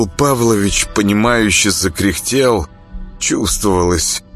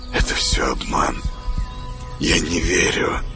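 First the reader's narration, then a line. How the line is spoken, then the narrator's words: Whisper. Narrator (Russian): прошептал Саня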